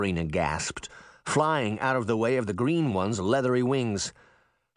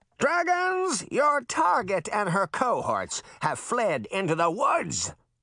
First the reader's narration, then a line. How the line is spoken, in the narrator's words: the mayor bellowed